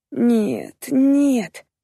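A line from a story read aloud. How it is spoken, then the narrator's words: Moaning aloud. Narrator (Russian): простонала вслух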